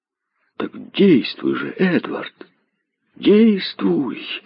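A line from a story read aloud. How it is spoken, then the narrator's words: Excited exclamation. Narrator (Russian): воскликнул Бейтман, в волнении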